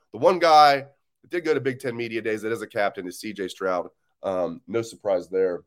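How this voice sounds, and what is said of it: Slightly scratchy voice. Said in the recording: “my voice is a little scratchy this morning”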